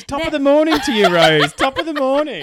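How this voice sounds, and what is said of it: Put-on Irish accent. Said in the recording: “Isn't that Irish?”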